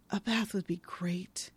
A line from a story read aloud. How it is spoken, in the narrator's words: She whispers